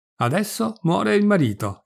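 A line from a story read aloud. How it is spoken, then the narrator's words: Crowd exclaiming. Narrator (Italian): esclama la gente qua e là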